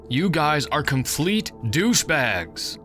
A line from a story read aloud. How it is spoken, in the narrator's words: yelled